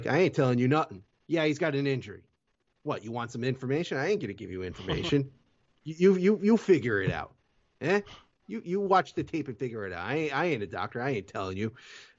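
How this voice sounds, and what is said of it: Put-on wise guy accent. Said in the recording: “pretend I had a Canadian accent there instead of a wise guy accent.”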